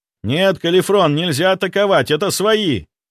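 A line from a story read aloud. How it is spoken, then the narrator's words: Mental shout. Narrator (Russian): Мысленно закричал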